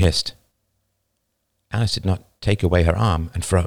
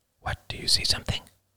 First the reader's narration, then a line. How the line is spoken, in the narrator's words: she whispered, barely audible